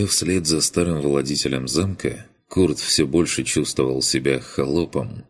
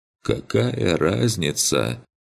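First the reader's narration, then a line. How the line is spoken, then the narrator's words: Sad. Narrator (Russian): Печально отозвался тот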